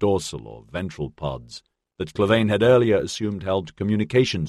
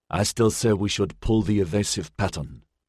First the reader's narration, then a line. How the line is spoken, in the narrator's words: Xavier murmured